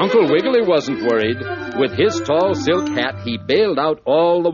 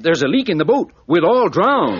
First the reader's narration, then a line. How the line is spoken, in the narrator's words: Monkey Doodle cried